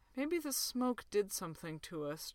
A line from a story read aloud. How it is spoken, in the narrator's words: John said mournfully